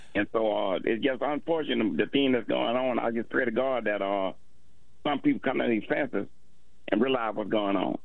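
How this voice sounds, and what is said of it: Speaks with a noticeable accent. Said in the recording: “Love your accent, by the way.”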